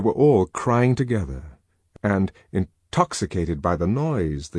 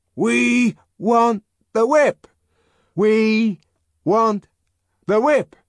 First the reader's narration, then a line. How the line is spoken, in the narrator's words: broke out again in the same loud, insistent monotone